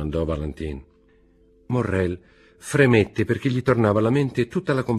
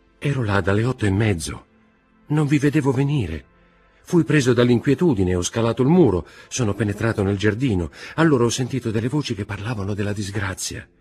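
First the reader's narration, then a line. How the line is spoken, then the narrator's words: Trembling voice. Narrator (Italian): disse Morrel con voce tremante e con le mani giunte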